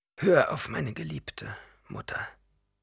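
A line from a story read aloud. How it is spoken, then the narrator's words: Plain. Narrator (German): sagte er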